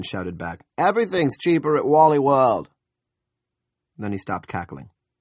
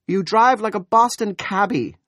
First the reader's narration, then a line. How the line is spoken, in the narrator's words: Julia said indignantly